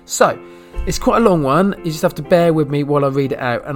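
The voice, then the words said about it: British accent. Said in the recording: “my fantastic British accent”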